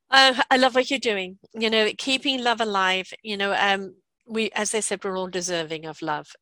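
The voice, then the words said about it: English accent. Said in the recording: “got a boring English accent here today”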